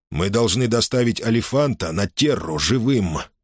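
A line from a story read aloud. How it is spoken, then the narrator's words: Through gritted teeth. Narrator (Russian): произнес он сквозь зубы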